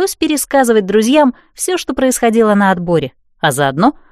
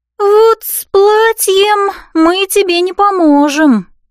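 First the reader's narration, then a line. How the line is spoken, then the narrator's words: Sigh. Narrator (Russian): вздохнула Элси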